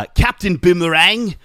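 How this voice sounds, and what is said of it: Put-on accent for Captain Boomerang. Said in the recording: “that's my best accent for him”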